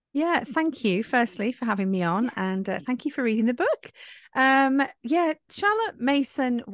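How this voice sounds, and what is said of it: English West Midlands accent. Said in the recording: “West Midlands, England ... her beautiful English accent.”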